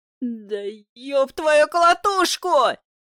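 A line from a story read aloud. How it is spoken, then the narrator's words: Howling in pain. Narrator (Russian): Взвыл я, выдергивая ногу из-под копыта бычка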